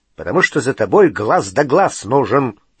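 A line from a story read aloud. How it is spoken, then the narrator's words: Growl. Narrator (Russian): прорычал Грюм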